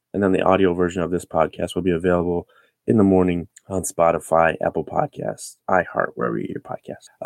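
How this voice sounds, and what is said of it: Sick, under-the-weather voice. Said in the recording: “excuse my voice. I'm a little under the weather. ... I will be consuming cough drops throughout this show”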